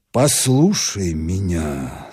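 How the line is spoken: As gently as possible. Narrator (Russian): сказал так мягко, как только мог

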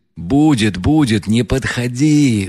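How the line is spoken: Yelling. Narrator (Russian): завопил Рогожин

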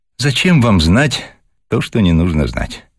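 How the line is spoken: Candid sigh. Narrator (Russian): откровенно вздохнула Вера

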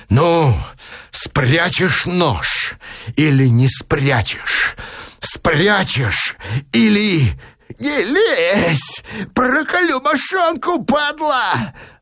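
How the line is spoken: Roaring, threatening and fearful. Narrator (Russian): Опять взревел парень первобытным голосом угрозы и страха

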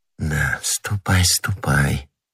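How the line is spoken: Whispered. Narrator (Russian): прошептала она вслед своему деверю

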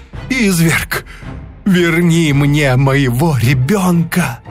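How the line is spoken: Sobbing plea. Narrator (Russian): несчастная снова и снова умоляла отдать ей ребенка ... и рыдала

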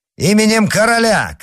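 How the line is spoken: Shout. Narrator (Russian): крикнул Д'Артаньян

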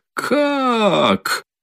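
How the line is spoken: Sudden startled cry. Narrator (Russian): Вскрикнула вдруг, опомнившись, Катерина Ивановна

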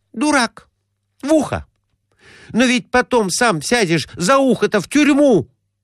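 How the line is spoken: Exclamation. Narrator (Russian): воскликнула

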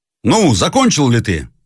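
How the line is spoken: Shouted. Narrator (Russian): закричал молчаливый офицер своему товарищу

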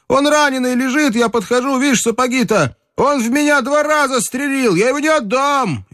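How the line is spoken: Wild shouting. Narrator (Russian): закричал пленному еще дичей

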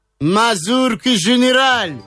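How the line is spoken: Shout. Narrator (Russian): закричал Бабетинский

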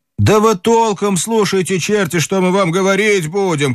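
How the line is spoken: Group shouting. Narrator (Russian): кричали они

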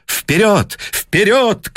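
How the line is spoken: Shouting. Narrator (Russian): крикнул Гленнерван

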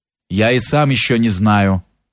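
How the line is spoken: Curt. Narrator (Russian): отвечал отрывисто Милославский

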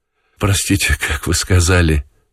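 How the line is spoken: Sudden attentive question. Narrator (Russian): спросил вдруг внимательно Желтков и рассмеялся

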